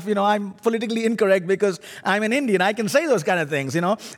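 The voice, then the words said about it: Indian accent, unusual syllable stress. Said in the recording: “My funny accent is actually I'm an Indian ... my funny accent tells you that I put the emphasis on the wrong syllable”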